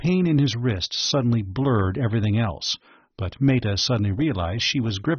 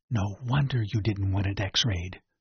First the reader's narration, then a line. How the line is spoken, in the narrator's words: she whispered